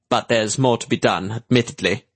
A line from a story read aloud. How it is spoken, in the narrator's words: Manx said stiffly